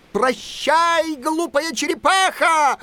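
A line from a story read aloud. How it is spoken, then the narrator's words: Shout. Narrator (Russian): закричал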